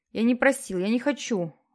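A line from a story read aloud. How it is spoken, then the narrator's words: Strained, forced out. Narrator (Russian): выдавил из себя Питер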